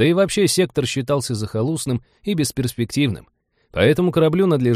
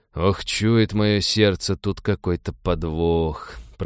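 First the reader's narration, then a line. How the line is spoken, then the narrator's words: Grumbling, ex-soldier. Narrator (Russian): проворчал бывший десантник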